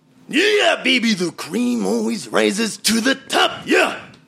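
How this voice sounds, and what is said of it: Randy Savage impression. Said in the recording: “your Randy Savage impersonation.”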